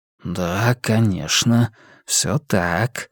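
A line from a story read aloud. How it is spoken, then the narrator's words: Whispering inner voice. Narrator (Russian): зашептал голос в голове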